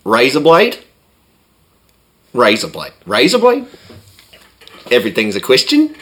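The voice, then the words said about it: Put-on Australian accent. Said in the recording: “I can't quite do the New Zealand, but here's the extent of my Australian accent.”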